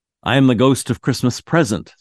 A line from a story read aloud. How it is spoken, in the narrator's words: said the spirit